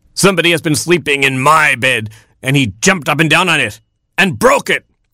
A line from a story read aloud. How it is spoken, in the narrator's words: cried Papa Rooster